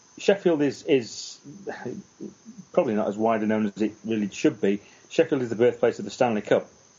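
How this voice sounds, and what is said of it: Northern English Sheffield accent. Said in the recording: “I'm from Sheffield ... in the north of England, hence my unusual accent.”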